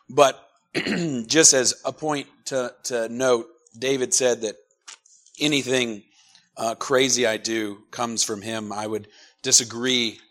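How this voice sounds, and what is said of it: Strained, quieter voice. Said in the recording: “My voice is giving me a little bit of a hard time, so I'm sorry if I cough a little bit ... I'm normally a pretty loud preacher ... I'll be a little quieter this morning”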